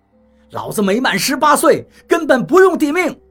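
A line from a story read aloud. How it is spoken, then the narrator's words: Wild yelling. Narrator (Chinese): 那个小伙子对我狂叫道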